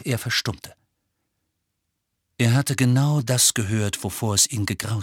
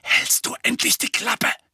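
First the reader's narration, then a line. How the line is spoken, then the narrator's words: Hissed. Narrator (German): zischte Harry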